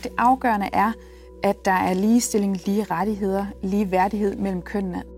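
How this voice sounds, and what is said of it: Calm, soft voice, slight Jutlandic accent. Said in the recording (Danish): “hun bruger et roligt tempo, både blød, mørk, lys ... den her lille jyske accent”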